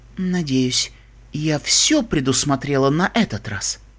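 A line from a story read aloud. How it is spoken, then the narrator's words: Quiet. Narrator (Russian): принцесса Селестия тихо произнесла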